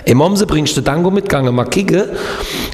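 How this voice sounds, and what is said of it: Regional dialect from Kehl am Rhein. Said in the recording (German): “wie geht nochmal Kehl am Rhein, wo ich gelebt habe?”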